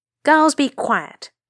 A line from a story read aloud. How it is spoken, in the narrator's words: snapped a woman